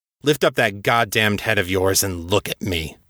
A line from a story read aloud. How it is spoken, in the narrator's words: Pierce snarled